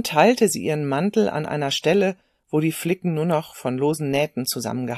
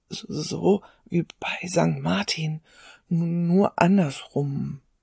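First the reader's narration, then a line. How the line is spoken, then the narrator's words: Whispered through chattering teeth. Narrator (German): flüsterte der Junge mit klappernden Zähnen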